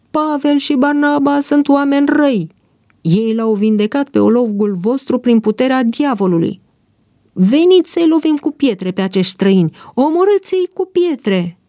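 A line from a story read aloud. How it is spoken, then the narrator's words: Crowd shouting. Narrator (Romanian): Ei strigau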